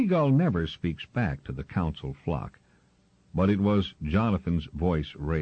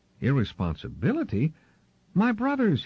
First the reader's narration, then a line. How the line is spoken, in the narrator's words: cried